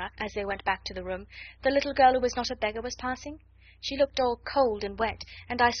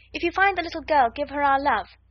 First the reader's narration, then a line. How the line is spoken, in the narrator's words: shouted Guy Clarence, jumping up and down on the doormat